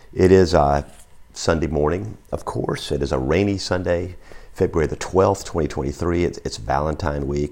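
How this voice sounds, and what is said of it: Hoarse voice. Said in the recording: “if you don't recognize my voice, because that's a little hoarse ... which involved some shout talking ... my voice is a little hoarse”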